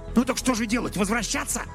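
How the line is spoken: Furious hiss. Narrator (Russian): яростно прошипел Донован

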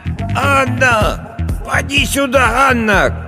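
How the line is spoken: Old woman shouting. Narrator (Russian): кричала старая Агафья

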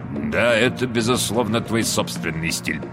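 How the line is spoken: Mumbled. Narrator (Russian): пробормотал сэр Вальтер

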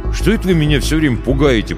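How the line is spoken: Grumbling. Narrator (Russian): проворчал я

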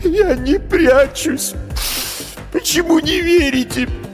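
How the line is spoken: Sobbing. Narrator (Russian): Пленник всхлипнул

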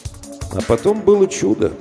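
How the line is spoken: Plain. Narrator (Russian): ответил Мигулис

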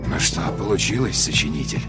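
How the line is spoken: Muttered to himself. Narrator (Russian): пробормотал человек сам себе под нос

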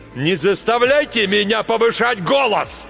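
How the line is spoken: Sudden yell. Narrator (Russian): заорал Марк Йоган

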